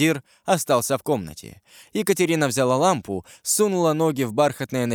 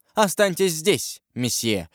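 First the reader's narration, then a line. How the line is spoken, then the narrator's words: More commanding tone. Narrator (Russian): сказала Екатерина уже более властным тоном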